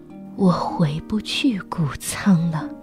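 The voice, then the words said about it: Low, barely audible voice. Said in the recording (Chinese): “用一种低的、威伯几乎都听不到的声音说”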